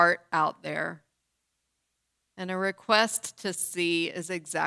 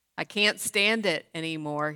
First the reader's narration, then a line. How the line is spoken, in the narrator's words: says